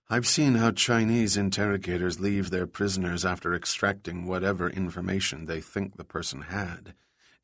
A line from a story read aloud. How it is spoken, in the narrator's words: Eddie had said in an emotionless monotone